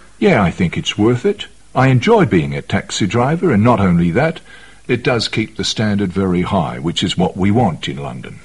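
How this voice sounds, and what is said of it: West Country accent, not Cockney. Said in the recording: “a country boy because I've still got that accent in me. I haven't really got a typical London Cockney accent”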